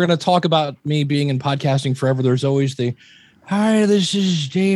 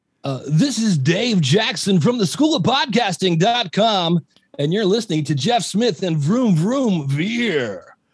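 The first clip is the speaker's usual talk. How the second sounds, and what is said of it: Yelling sportscaster radio announcer voice. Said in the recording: “Vomit Radio Guy ... that's crappy radio guy ... hey, I'm a sportscaster and I'm yelling”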